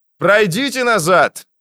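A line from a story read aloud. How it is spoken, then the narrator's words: Shouted into phone. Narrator (Russian): закричал в телефон инженер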